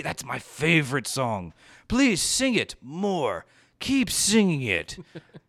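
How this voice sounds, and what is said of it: Sarcastic delivery. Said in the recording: “I'm being sarcastic.”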